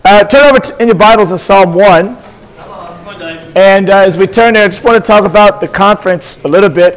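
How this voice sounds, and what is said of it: Hoarse, strained lost voice. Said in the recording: “you just have to deal with this voice ... It was so intense that I've lost my voice already.”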